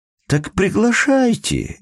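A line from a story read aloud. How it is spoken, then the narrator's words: Emotional placating exclamation. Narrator (Russian): эмоционально воскликнул хозяин дома, стремясь погасить конфликт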